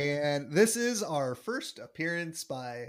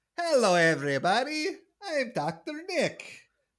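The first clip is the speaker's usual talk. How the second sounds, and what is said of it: Bad Ricky Ricardo-style character voice. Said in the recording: “as you could clearly tell by my character work, is a bad Ricky Ricardo impression”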